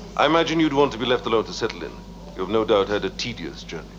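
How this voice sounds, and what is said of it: Uncertain put-on Russian accent. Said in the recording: “I'm not sure what accent he's going ... for ... Russian is a is a difficult accent to pull off ... Russian, Welsh. I don't know.”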